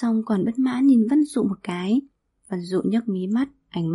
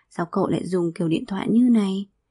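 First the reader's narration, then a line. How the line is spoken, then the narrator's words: Disappointed mutter. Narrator (Vietnamese): Bạch Lộ thấy thất vọng, không nhịn được mà lầm bầm một câu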